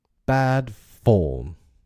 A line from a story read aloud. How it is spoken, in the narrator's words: he cried jeeringly